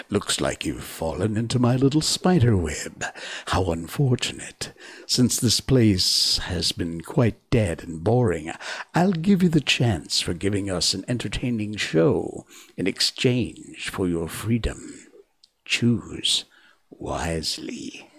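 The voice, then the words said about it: Put-on villainous character voice. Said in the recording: “I have to put on a voice for this.”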